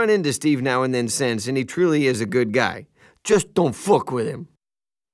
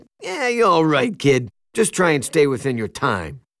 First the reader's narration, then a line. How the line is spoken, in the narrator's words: He broke into a big laugh, said